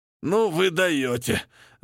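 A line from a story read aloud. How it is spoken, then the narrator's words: Groaning, forced out, embarrassed. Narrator (Russian): Застонав, выдавил красный Арни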